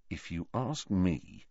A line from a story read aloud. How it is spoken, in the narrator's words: said Harry quietly